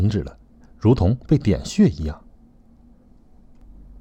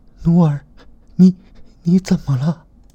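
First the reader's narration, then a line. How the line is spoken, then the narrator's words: Trembling, heartrending voice. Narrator (Chinese): 这声音带着颤音，听着就让人心疼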